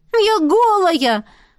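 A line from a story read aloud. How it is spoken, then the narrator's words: Desperate exclamation. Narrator (Russian): с отчаянием воскликнула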